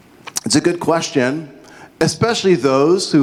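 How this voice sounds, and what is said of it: Usual voice. Nothing is said of it.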